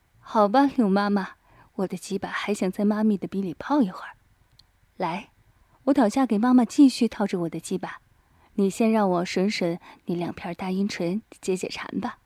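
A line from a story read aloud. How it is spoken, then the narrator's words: Laughing. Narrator (Chinese): 于飞笑道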